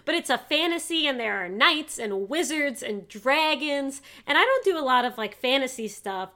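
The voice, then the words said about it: New York accent. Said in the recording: “note ... New York accent.”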